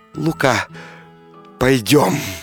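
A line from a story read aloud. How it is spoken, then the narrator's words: Tender, quiet whisper. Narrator (Russian): купчиха мгновенно вспыхнула огнем и прошептала нежно, тихо, к нему склонясь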